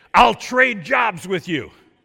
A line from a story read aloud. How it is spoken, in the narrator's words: she yelled back at him